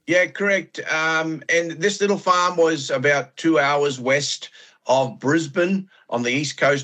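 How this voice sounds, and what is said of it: Australian accent. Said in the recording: “his accent because he's Australian”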